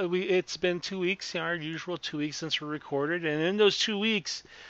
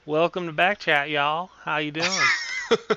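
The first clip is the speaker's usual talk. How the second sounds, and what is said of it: Put-on Oklahoma accent. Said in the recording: “use my Okie accent to start off this”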